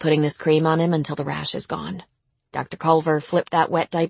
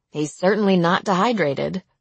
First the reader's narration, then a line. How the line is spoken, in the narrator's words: she said with a small laugh